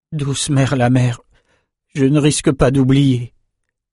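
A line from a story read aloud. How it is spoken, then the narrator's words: Young man moaning. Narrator (French): avait gémi le jeune escrimeur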